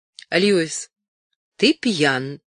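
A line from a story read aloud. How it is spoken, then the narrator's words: Said sternly. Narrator (Russian): строго сказала она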